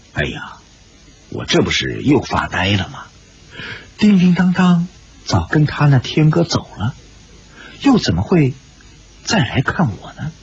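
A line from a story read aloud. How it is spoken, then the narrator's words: Giggling. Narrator (Chinese): 咯咯的一笑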